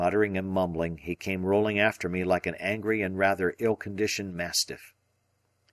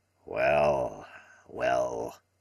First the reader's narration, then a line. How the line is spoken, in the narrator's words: he grumbled